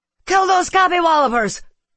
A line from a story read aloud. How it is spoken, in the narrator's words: Mayreed cried